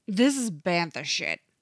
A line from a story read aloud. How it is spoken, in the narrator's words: Thorn snarls